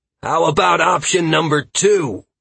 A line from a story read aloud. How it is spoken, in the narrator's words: Halcyon yelled